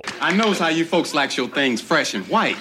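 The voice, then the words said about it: Put-on Southern accent. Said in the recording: “using a southern accent”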